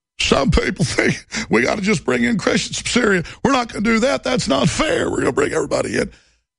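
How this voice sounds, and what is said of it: Imitates another person's voice. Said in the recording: “Here, I'll do Obama in the voice of Clinton.”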